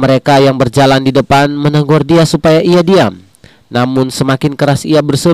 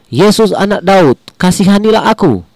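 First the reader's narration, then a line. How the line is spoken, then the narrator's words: Crying out. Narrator (Indonesian): ia berseru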